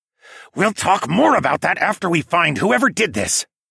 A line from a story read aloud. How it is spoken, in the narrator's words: Tawa cut in with a growl